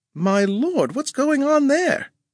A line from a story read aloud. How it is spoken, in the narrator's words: Jastrow quavered